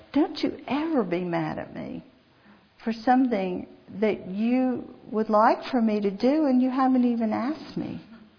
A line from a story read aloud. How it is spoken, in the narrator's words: he said, very calmly, he said